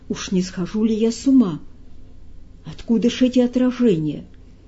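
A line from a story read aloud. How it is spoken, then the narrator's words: Frightened shout. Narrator (Russian): испуганно закричал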